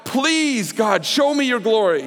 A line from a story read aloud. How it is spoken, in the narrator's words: Moses was boldly, he was pleading with God